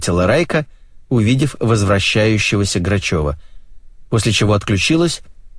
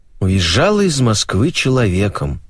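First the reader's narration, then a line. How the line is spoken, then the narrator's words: Sighing. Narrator (Russian): вздохнула Марго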